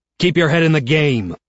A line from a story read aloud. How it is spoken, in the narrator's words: he shouts at me